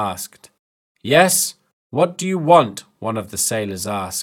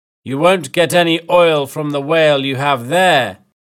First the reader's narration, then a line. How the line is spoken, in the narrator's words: Captain Ahab shouted